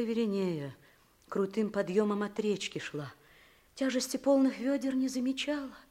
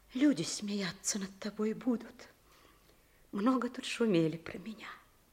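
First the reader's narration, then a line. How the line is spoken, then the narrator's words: Whisper. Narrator (Russian): Веринея шепотом добавила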